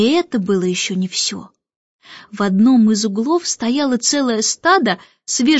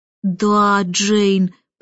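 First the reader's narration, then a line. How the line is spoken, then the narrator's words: Drawled. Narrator (Russian): протянул Майкл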